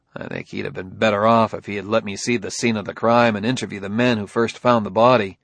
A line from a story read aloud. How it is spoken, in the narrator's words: Bailey said dryly